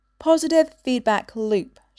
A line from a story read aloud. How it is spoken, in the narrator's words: she said